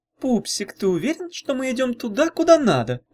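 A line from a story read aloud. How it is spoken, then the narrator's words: Cooing. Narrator (Russian): проворковала Грабуля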